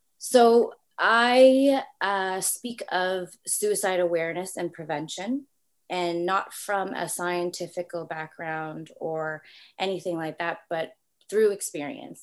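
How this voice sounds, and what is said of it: Slight Canadian accent. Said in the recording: “from Toronto, Canada. So you might hear a little bit of accent. People say I do have a little something when I say about or something like that.”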